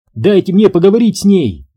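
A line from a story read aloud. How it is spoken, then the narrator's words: Shout. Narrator (Russian): выкрикнула Рут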